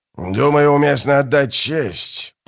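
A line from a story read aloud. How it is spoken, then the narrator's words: Growl. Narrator (Russian): прорычал Бальт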